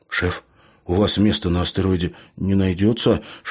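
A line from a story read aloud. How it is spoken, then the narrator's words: Whispered question. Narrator (Russian): шепотом спросил Лео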